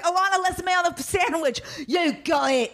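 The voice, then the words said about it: Bad over-the-top Cockney British accent. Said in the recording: “the worst fucking British accent in the entire world ... such an over the top accent ... Cockney”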